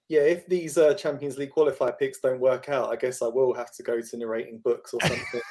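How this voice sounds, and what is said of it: Speaks with a distinctive accent. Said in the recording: “accent is the best”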